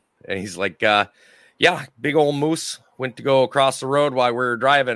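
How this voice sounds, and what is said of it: Put-on Minnesotan accent. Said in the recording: “I'll give this one my best Minnesotan accent”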